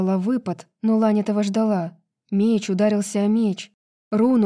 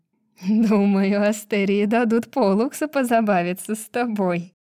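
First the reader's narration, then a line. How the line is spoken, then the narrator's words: Bitter, spiteful laugh. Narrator (Russian): горько и злобно засмеялась Гарпия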